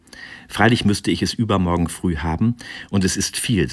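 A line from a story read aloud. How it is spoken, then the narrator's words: Plain. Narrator (German): sagte Eduard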